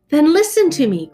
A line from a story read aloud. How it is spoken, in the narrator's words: cried the prince